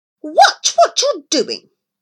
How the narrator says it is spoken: Millington snapped

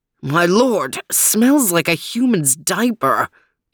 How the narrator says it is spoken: exclaimed Overton

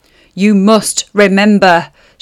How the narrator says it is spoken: she snarled

